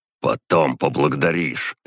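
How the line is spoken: Barked. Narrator (Russian): рявкнул я

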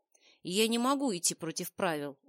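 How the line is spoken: Heavy sigh. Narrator (Russian): он тяжело вздохнул

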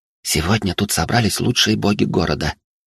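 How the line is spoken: Whisper nearby. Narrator (Russian): рядом шептала

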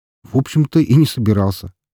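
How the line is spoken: Wry snort. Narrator (Russian): хмыкнул я

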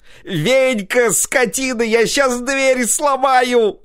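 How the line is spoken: Furious shouting. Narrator (Russian): заорал взбешенный до предела Прокоп

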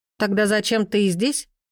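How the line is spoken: Mocking question. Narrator (Russian): спросила насмешливо другая

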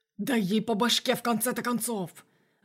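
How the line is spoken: Growling. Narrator (Russian): рычал какой-то ублюдок

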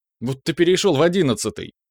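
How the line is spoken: Nervous shivering chuckle. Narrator (Russian): хохотнул Дюха, начиная понемногу суетиться и вздрагивать, будто в ознобе

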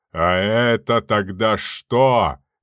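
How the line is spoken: Roared. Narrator (Russian): взревел бритоголовый

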